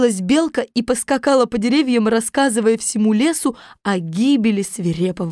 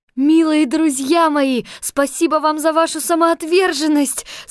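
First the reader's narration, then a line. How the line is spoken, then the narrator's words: Tearful exclamation. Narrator (Russian): со слезами на глазах воскликнула Элли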